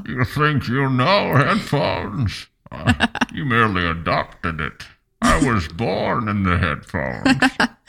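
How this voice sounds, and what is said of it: Spot-on Bane character impression. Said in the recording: “You did Bane ... he does his impersonation and it was spot on”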